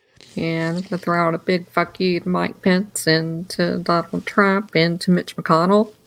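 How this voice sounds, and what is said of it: Southern American accent. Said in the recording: “got a southern accent”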